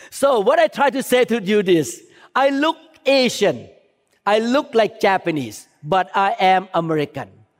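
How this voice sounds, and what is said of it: Speaks English with an accent. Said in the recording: “I speak with accent”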